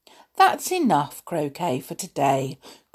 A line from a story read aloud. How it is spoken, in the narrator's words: crooned soothingly